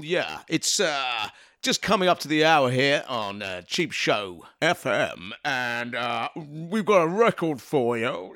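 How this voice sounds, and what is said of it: Radio DJ voice. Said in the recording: “Do your best DJ voice”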